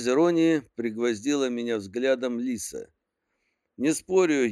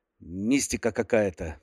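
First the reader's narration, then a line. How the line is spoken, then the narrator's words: Irritated outburst. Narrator (Russian): вспыхнул раздраженно Дюпон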